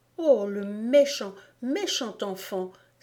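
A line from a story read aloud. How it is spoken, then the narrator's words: Indignant exclamation. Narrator (French): s'écria indignée, car elle savait ce que c'est que d'avoir un parapluie ruisselant sur la tête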